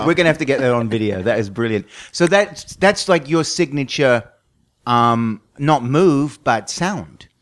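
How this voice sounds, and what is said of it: Mixed Australian-American accent, slightly British. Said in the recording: “it's also a little different accent because you lived in Texas ... it's Australia and then ... Australia, Texas, California. And then people think I'm British too ... there's a bit of down the pub ... it's just an odd accent”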